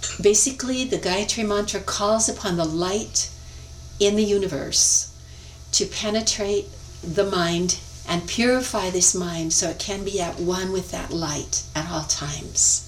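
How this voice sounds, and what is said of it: Flat American accent. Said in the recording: “my flat American accent”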